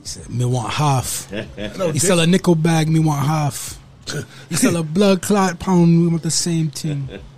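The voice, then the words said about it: Fairly good put-on accent. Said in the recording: “That's a pretty good accent,”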